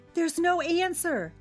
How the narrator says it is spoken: cried Gertie

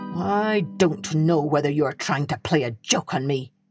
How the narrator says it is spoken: answered the innkeeper grimly

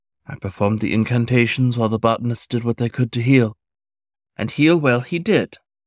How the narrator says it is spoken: the fox sighed wistfully

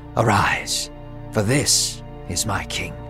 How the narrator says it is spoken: God whispered to Samuel and said

